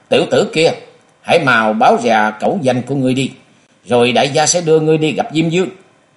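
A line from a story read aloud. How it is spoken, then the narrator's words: Two voices shouting angrily. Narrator (Vietnamese): Hai người mắt thấy đồng bọn của mình bị lăng nhục, cùng quát to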